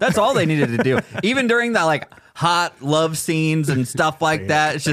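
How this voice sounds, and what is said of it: Usual voice. Nothing is said of it.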